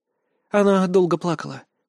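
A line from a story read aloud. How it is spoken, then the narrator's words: Shaky, broken sigh. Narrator (Russian): прерывисто вздохнула Ланна Оми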